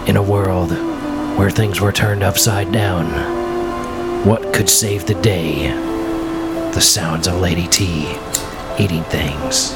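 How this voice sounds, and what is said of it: Deep dramatic movie trailer narrator voice. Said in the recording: “movie trailer voice”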